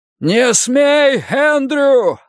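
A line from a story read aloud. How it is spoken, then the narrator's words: Yelling. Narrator (Russian): заорал Финли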